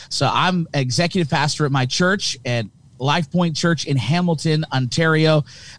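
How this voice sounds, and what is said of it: Thick Canadian accent. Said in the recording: “my thick Canadian accent”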